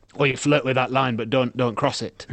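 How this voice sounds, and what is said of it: Impression of their boss. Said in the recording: “That's our boss. It's a bad impression. ... That's quite accurate.”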